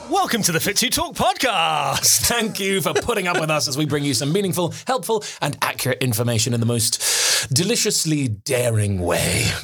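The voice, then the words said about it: Exaggerated posh podcast-host voice. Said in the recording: “podcast voice. I really gave it some podcast voice ... You've gone very posh.”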